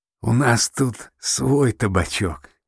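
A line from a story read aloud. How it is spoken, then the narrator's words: Strained, weak from laughter. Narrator (Russian): с трудом выжил ослабевший от хохота Лунь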